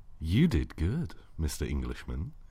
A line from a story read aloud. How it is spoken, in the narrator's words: said, oh so gently